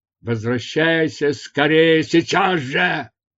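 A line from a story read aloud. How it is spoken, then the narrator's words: Shouted reply. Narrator (Russian): крикнул в ответ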